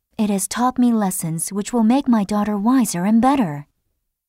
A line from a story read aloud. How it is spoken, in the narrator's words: Hester Prynne said calmly